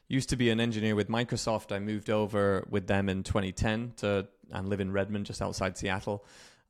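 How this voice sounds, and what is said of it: Faint British accent. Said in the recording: “I'm British, if you can still hear the remnants in my accent”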